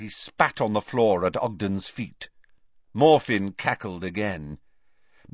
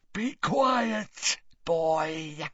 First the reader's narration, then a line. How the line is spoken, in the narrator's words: snarled Gaunt in parcel tongue